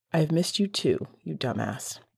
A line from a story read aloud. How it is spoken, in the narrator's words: Regulus whispered, his breath warming Sirius's skin